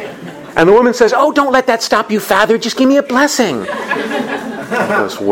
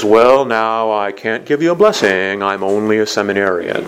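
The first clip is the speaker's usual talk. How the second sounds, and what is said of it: Impression of a priest's voice. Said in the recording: “my best Father de Laterante impression”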